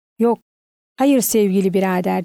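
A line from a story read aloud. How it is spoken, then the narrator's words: Plain. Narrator (Turkish): dedi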